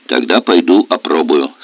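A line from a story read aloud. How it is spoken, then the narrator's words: Plain. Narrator (Russian): сказал Алексей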